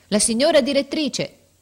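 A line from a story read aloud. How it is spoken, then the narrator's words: Shouting. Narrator (Italian): arrivò la portinaia gridando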